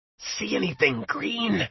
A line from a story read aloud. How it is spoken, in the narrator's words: this octogenarian Arnie Cunningham croaked as its body twisted and writhed and withered